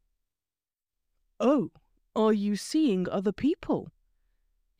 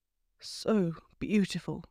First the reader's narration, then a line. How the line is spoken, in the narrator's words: he murmured